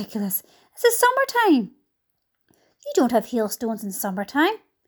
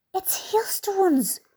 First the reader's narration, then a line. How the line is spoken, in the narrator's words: whispered James excitedly